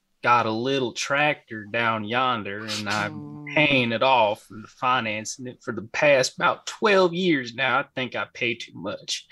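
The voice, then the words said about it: Put-on Texas accent. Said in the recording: “give me your best Texas accent ... this is my Texas accent ... that's my Texas accent”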